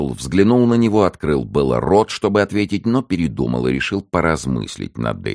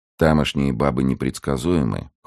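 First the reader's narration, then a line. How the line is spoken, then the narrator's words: Cold reply. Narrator (Russian): холодно ответил тот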